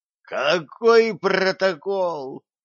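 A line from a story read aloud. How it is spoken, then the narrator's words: Groaning gnome. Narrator (Russian): простонал гном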